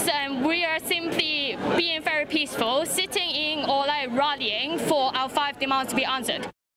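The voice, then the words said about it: Hong Kong accent with British tinge. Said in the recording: “I sort of love the slight British accent laid over the Chinese accent.”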